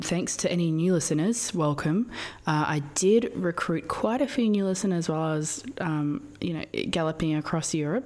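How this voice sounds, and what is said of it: Husky, slightly sick voice. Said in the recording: “I'm a little sick. I don't know if you can hear it in my voice. I'm a little sick and I also did have a shame cigarette in the car ... You got that huskiness.”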